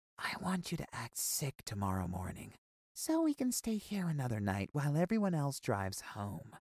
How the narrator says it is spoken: Miss Lopez came to my bed and whispered

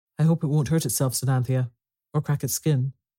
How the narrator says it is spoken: Robert said anxiously

